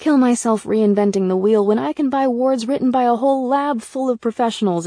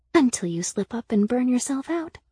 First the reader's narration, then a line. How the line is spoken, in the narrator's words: Sybil whispered